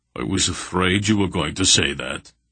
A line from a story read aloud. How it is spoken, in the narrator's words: Barak grumbled